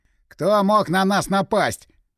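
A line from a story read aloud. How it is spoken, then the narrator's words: Yelling from hiding. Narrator (Russian): заорал спрятавшийся за коробками Игорь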